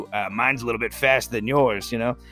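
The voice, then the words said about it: Sudden put-on accent. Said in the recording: “I don't know where that accent came from”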